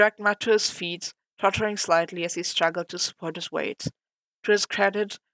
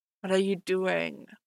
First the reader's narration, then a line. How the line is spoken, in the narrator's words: Matt muttered uncertainly